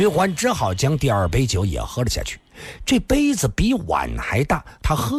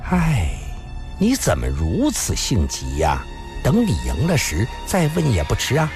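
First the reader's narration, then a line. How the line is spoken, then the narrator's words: Resigned sigh. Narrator (Chinese): 孙小红 叹了口气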